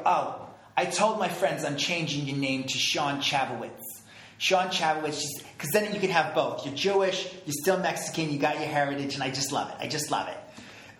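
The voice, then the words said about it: Thick Jewish New York accent. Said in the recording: “thick Jewish New York accent ... I'm going to do her voice”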